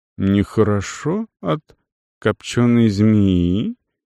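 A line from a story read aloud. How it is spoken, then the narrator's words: Slow deliberate repetition. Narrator (Russian): медленно повторил купец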